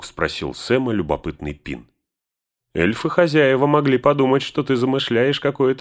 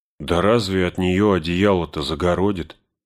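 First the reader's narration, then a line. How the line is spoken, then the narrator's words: Grumble. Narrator (Russian): проворчал Сэм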